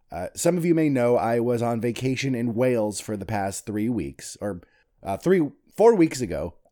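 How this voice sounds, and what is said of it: Congested voice from a cold. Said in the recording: “hear it in my voice ... I do have a cold”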